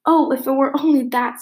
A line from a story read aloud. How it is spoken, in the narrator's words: sighed Anne